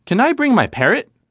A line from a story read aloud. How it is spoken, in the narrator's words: Cade questioned eagerly